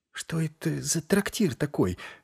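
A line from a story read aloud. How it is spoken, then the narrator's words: Whisper. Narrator (Russian): прошептала Шельма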